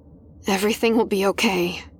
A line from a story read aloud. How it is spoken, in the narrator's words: she murmured again